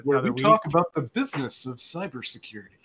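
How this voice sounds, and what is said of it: Slow radio announcer voice. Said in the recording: “my radio voice ... using his dad voice ... We slowed it down.”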